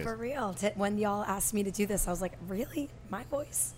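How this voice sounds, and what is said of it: Scratchy, smoky voice. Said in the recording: “I lose my voice really easily, so I always have a really scratchy sounding voice ... It's like it's smoky”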